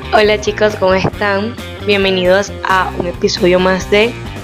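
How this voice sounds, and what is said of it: Hoarse voice. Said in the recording (Spanish): “tú suenas como Viviana Givelli ... estoy ronca ... Es que estoy ronca.”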